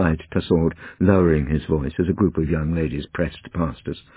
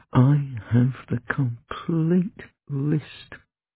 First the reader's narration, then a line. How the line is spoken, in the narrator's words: murmured Tussaud